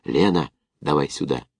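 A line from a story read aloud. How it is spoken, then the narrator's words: Whispered call. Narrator (Russian): позвал шепотом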